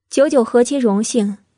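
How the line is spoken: Calm, cool interruption. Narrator (Chinese): 慕容九九淡淡打断百里玉华的话，又道

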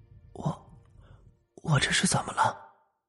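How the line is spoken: Weak, hoarse question. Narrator (Chinese): 才虚弱沙哑的问了一句

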